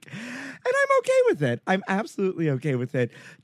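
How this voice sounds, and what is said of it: Frasier Crane character voice impression. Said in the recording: “doing my best Frasier Crane impression”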